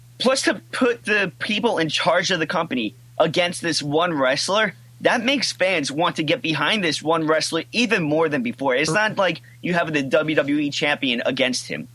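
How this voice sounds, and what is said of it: Yelling. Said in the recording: “Are you yelling at me ... I'm yelling at Triple H right now ... So I'm yelling.”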